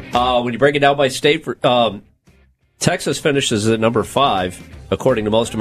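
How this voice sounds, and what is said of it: Usual voice. Nothing is said of it.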